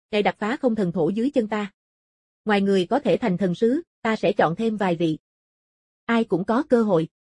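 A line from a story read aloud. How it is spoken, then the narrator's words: Cold, mocking. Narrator (Vietnamese): Không Thiên Cừu cười thầm, chế nhạo sự ngu muội của họ, rồi lạnh lùng nói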